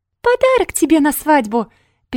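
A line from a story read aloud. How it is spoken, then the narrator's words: Squeaky mocking mimicry. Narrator (Russian): писклявым голосом передразнил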